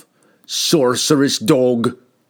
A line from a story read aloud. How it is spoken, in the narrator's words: bellowed